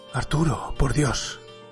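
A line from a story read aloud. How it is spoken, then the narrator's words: Weak whisper. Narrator (Spanish): susurró sin fuerzas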